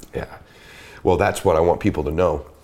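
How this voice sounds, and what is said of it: Slightly choked-up, emotional voice. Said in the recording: “you just get me a little choked up. Not that choked up.”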